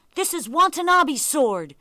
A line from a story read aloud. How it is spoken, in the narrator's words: shouted the young boy bravely